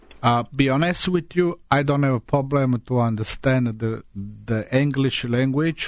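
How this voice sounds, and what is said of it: Italian-accented English. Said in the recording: “we have trouble understanding your accent ... I left Italy when I was 17 and a half”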